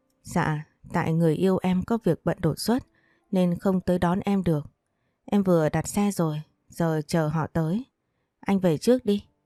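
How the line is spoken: Smiling speech. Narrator (Vietnamese): Thu Trà mỉm cười nói

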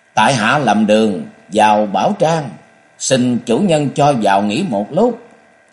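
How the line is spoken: Loud call. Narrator (Vietnamese): hít một luồng chân khí vào huyệt đan điền rồi lớn tiếng gọi

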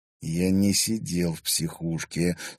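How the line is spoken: Through gritted teeth. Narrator (Russian): сквозь зубы процедил Олег

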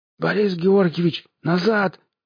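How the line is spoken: Hoarse wheeze. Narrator (Russian): захрипел он

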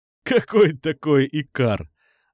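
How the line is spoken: Laughing reply. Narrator (Russian): засмеялся в ответ Никита

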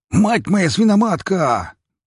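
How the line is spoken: Pig shouting. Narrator (Russian): прокричал свин

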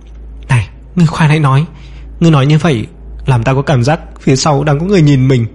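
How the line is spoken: Trembling. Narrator (Vietnamese): Dương Minh run rẩy nói

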